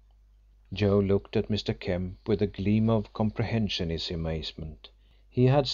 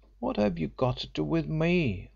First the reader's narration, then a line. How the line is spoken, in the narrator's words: asked the boy in an injured tone